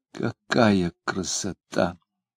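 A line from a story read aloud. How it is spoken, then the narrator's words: Delighted whisper. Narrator (Russian): восторженно шептала она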